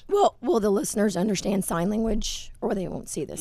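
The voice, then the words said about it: Hoarse voice. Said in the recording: “I'm sorry I'm a bit hoarse ... She usually does not sound this hoarse ... do not let the voice fool you. I know this is a temporary thing”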